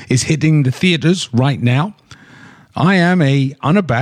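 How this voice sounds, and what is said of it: Usual voice. Nothing is said of it.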